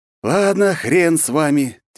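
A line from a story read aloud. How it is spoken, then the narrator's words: Heavy sigh. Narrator (Russian): тяжело вздохнул я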